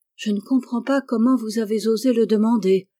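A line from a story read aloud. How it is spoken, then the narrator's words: Terrified exclamation. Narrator (French): s'écria Bess avec terreur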